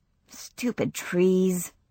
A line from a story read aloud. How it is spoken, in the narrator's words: Tally muttered, gritting her teeth